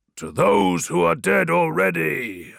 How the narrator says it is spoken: I roared in unison with my brothers

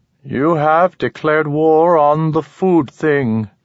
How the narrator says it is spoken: Manek intoned

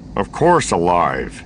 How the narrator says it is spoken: he said stiffly

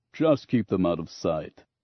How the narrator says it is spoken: Grunts chuckled, then said

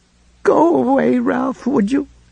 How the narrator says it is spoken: she asked in a thick, choked voice

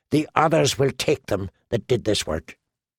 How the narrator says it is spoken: said in a low, angry voice

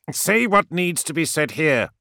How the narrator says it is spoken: snapped Corpharaon, such little patience as he had, quickly worn thin by the giant's hesitancy

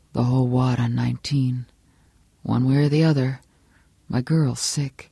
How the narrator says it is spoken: Johnny Smith said softly

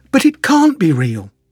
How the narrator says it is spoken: exclaimed

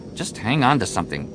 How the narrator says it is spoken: Jason muttered

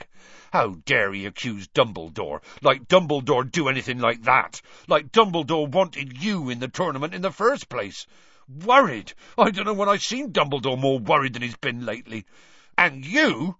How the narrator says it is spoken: Hagrid suddenly said angrily

